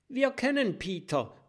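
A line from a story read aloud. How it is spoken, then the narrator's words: Call. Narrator (German): ruft Mathilda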